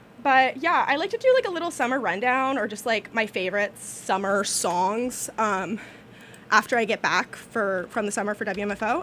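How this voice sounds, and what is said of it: Out of breath, breathy voice. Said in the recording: “my voice just pitched up right then... Mostly I'm just out of breath.”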